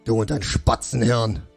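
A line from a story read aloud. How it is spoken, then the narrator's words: Gruff snapping. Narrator (German): schnauzte ihn Schlachtgol an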